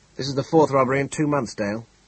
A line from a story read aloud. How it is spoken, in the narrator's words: the Commissioner said impatiently